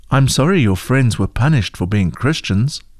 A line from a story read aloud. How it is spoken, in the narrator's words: Heidi spoke softly